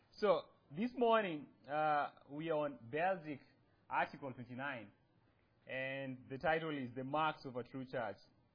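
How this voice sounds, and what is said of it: Noticeable accent. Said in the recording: “you guys have to bear with my accent. I say things differently.”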